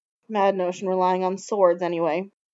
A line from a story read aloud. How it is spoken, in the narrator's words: he said finally